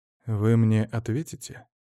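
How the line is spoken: Soft quiet question. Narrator (Russian): Тион спросил мягко и тихо

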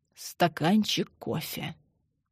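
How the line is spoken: Quiet. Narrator (Russian): тихо проговорила Мария Ивановна

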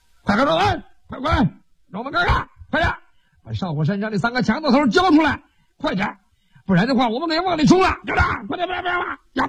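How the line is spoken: Many soldiers shouting chaotically. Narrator (Chinese): 后边的官兵……一起在那扯着嗓子乱喊

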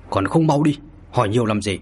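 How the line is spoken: Frowning shout. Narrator (Vietnamese): Mao Tử Phương nhíu mày quát

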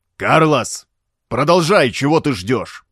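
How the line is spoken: Roared. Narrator (Russian): взревел Роберто

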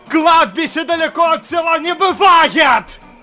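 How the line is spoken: Sudden frightening yell. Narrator (Russian): Заорал вдруг доктор так, что сам испугался

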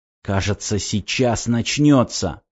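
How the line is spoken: Whisper. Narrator (Russian): шепнул

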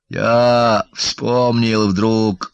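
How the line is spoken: Muffled voice, father. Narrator (Russian): глухо заговорил отец

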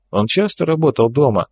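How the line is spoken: Plain question. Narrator (Russian): спросил Серов

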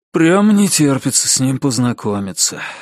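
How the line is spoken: Sighing. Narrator (Russian): вздохнул Ричард

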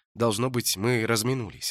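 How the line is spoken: Plain. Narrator (Russian): ответил Холт

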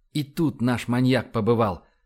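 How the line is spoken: Whispered in ear. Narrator (Russian): шепнул Эндрю на ухо Иве

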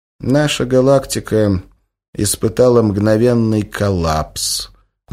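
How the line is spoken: Sad academic. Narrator (Russian): грустно ответил академик

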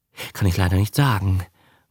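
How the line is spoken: Respectful murmur. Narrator (German): murmelt Herr Povondra respektvoll

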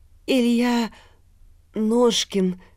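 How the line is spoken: Hesitant. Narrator (Russian): наконец неуверенно проговорил он

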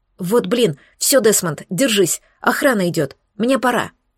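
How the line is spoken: Quick whisper. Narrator (Russian): Спрутовская быстро прошептала

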